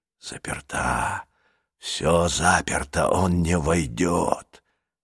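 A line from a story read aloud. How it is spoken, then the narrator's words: Distant whisper. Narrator (Russian): доносился до Джулии шепот садовника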